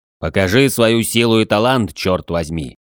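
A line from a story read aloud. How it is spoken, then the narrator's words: Growling churchman. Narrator (Russian): рыкнул церковник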